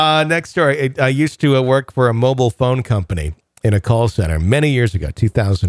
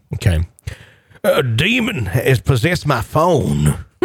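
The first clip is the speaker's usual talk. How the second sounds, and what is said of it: Loud, frantic Southern US accent. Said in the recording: “In a thick Southern Alabama-like accent, very loudly, not screaming, but a nearly frantic ... I apologize if the accent is not Alabama. I have kind of a staple Southern”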